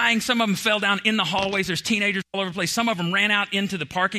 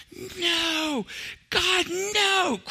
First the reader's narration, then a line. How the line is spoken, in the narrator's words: teenagers started screaming